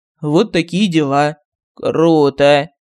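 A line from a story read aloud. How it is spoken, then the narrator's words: Sour approval. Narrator (Russian): Кислым голосом одобрил Мар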